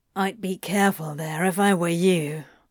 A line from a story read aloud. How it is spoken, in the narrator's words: Crowley growled